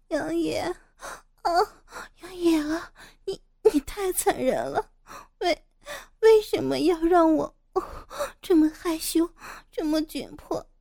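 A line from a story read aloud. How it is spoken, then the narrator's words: Breathless, panting. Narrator (Chinese): 傅菊英喘息着说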